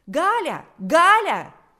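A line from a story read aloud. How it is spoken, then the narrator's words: Piercing shout. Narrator (Russian): закричал пронзительный голос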